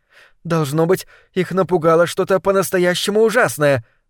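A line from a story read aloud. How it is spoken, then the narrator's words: Exclaimed. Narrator (Russian): воскликнула Персики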